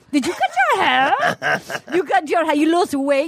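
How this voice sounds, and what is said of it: Put-on accent voicing a mother. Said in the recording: “I'm a master of accents.”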